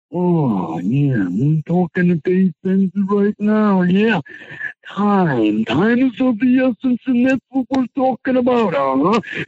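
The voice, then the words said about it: Macho Man Randy Savage impression. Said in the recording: “let's start with your favorite, Macho Man Randy Savage”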